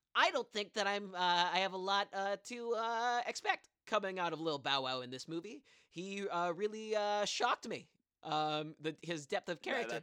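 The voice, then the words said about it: Imitates another person's voice. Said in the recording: “that's a great impersonation.”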